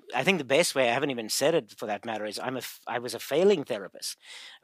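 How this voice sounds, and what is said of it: South African accent. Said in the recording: “He's actually from originally from South Africa ... be able to detect the accent”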